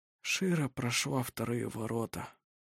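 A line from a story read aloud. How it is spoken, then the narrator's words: Quiet. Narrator (Russian): тихо сказал он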